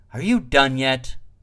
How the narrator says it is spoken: Sighing, he said

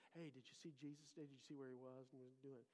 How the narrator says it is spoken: many people are just whispering

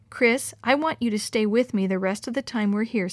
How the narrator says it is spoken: said Mr

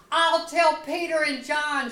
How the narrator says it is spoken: shouts

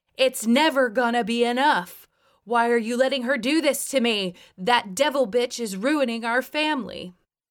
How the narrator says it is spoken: Charlene barely hesitated for half a second before screaming at the top of her lungs

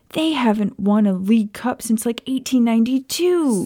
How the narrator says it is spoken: Sirius shouted

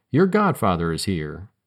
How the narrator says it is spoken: said brightly

